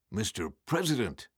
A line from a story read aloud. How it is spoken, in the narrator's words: Devereux blurted out